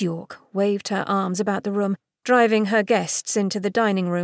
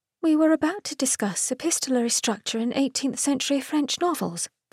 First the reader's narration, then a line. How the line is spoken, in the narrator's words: Philippa murmured